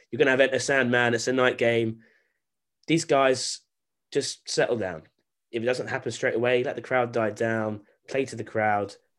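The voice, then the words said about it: Strong British accent. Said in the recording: “my very British accent”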